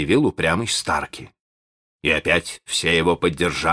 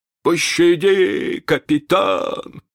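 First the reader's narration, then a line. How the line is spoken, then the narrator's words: Whimpering, trembling. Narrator (Russian): захныкал Старки, дрожа всем телом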